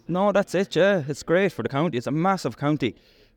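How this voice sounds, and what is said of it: Irish Mayo accent. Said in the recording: “you have a Hardy Bookside accent as well, like, you have a Mayo accent.”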